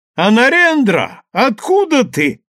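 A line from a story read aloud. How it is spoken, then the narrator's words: Joyful exclamation of recognition. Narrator (Russian): радостно вскричал Дайрам, узнавая друга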